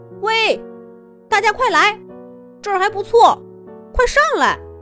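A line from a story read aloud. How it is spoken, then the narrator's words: Calling out excitedly. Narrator (Chinese): 向浅海里的伙伴们喊道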